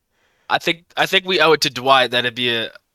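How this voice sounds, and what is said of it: Put-on Southern accent. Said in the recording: “I gave it a Southern accent”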